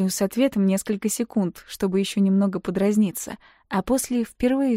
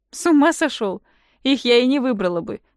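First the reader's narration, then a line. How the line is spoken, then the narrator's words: Loud laughing. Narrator (Russian): громко рассмеявшись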